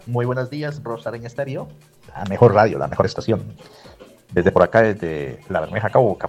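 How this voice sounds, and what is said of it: Polished radio announcer voice. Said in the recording (Spanish): “Tiene una voz súper chévere, ¿no? Voz de locutor.”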